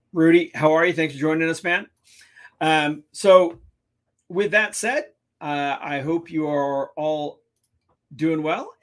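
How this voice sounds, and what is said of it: Hoarse, strained voice. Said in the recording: “Losing my voice.”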